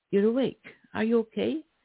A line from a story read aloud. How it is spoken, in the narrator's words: he asked